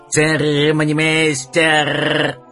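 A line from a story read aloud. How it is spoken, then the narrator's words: Harsh metallic parrot cry. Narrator (Russian): Попугай выкрикнул резким металлическим голосом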